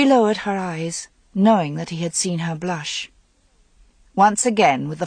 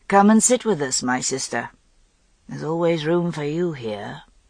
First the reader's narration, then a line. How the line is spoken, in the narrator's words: he said, his voice so languorous